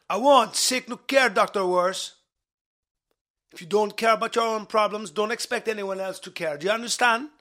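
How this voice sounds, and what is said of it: Put-on Jamaican accent. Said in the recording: “speaking Jamaican with a Jamaican accent”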